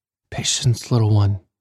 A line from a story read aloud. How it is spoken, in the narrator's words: whispered